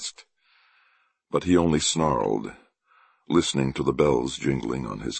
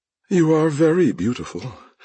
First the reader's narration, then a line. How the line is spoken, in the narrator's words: sighed the clown